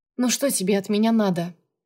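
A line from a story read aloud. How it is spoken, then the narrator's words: Sighed. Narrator (Russian): вздохнула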